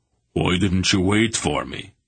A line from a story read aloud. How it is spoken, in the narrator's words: Barak demanded crossly